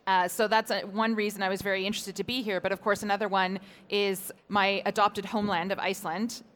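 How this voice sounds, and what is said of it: Canadian English accent. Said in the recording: “As you probably hear from my accent, it's not the country that I was born and raised in. I'm from Canada originally.”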